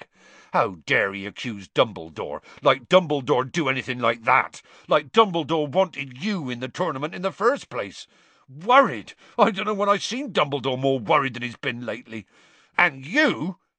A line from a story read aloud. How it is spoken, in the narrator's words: Hagrid suddenly said angrily to Harry